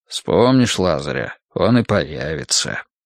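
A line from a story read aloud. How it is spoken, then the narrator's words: Gruff mutter, guard. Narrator (Russian): буркнул охранник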